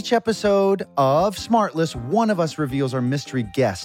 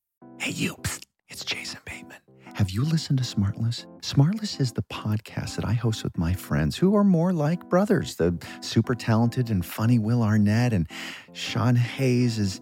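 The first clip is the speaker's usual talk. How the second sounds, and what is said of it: Whispering. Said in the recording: “why are you whispering?”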